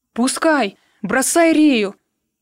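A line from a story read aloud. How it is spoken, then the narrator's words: Shouting boatswain. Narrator (Russian): закричал боцман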